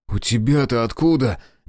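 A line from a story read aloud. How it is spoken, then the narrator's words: Unrestrained exclamation. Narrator (Russian): не сдержавшись, воскликнул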